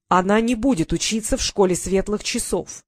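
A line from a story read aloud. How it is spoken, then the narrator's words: Loud and clear. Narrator (Russian): громко и четко произнес Нортон Огнев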